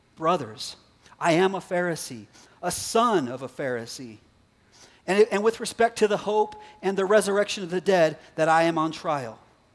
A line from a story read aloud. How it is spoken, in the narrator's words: he cried out in the council